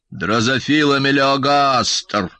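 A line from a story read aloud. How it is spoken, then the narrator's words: Creaky old voice. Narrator (Russian): проскрипел батя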